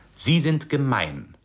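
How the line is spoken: Loud in silence. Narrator (German): sagte sie laut in der herrschenden Stille

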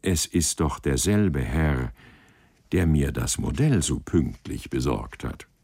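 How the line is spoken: Slightly malicious smile. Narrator (German): fragte sie mit etwas boshaftem Lächeln

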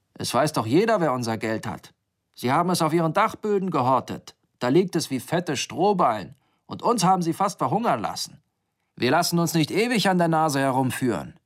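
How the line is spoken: Thundering. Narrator (German): donnerte er

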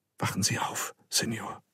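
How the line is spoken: Whisper in the ear. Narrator (German): flüsterte ihm eine Stimme ins Ohr

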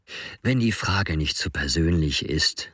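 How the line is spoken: Gentle voice. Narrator (German): fuhr mit sanfter Stimme fort

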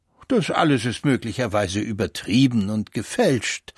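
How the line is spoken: Plain. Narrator (German): sagte Pastor Wunderlich

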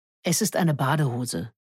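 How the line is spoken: Plain. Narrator (German): sagte

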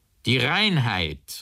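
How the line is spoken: Called out. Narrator (German): rief K

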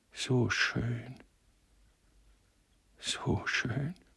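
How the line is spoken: Man breathing softly. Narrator (German): hauchte er

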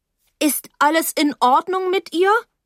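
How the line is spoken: Calling out. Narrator (German): rief ich

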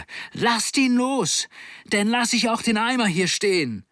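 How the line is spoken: Screamed at full volume. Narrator (German): schrie Nanning aus voller Kehle

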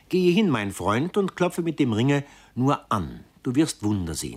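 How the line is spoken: Plain. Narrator (German): sagte meine Geliebte

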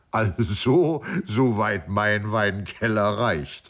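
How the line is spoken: Laughing. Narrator (German): lachte der Präzeptor

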